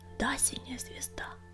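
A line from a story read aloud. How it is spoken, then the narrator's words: Whisper. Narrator (Russian): прошептал Огнегриф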